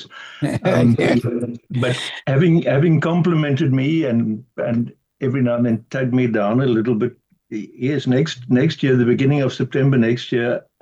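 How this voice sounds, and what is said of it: South African Pretoria accent. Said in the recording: “if you struggle with the Pretoria accent, then I'm sure that a radio program such as yours can call on interpreters”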